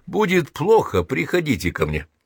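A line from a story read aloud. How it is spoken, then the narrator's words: Laughing friendly offer. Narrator (Russian): Эйнштейн засмеялся и на прощание предложил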